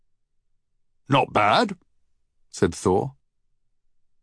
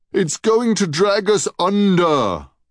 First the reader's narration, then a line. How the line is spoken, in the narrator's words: boomed Hamir in horror